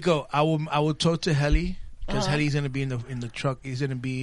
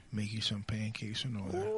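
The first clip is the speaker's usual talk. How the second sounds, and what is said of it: Put-on sexy, seductive voice. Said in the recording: “Why are you getting all sexy voice? Why are you putting your sexy voice on?”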